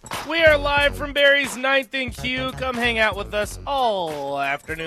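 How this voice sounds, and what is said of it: Usual voice. Nothing is said of it.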